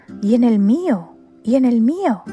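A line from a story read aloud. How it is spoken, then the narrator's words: Crows shouting in unison. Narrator (Spanish): gritaban todos los cuervos a un tiempo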